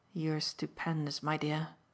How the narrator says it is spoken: he murmured

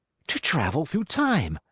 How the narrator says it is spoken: exclaimed the very young man

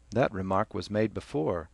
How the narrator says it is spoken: Cranley said calmly

